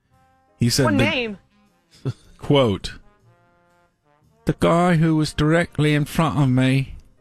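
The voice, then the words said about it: Put-on Irish accent. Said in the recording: “this is my Irish accent somehow ... perfect”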